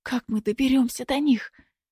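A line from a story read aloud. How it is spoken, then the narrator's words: Whispering while spitting. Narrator (Russian): шепнул Синица, отплевываясь от мошек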